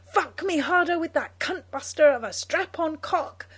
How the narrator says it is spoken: Janet screams, eagerly

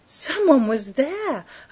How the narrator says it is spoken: her mind screamed

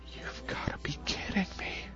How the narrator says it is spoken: whispered Nina

